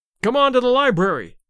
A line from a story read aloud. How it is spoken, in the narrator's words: shouted Larry